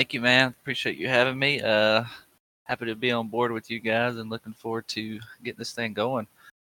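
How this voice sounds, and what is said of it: Thick Southern twang accent. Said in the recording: “a pretty thick accent ... that twang”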